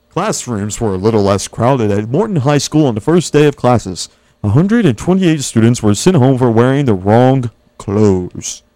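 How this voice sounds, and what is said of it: News anchor voice. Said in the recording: “You like my news voice.”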